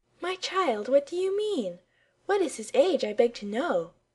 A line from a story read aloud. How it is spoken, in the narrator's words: cried Miss Clara